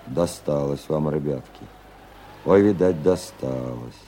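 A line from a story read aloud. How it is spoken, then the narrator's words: Sighing, pitying. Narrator (Russian): вздохнул и пожалел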